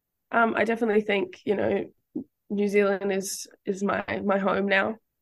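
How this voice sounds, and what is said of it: Slight Australian accent. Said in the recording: “there's a bit of an accent there, and I know you were born and bred in Sydney”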